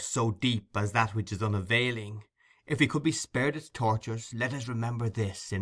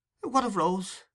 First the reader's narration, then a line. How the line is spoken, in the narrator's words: cried the old lady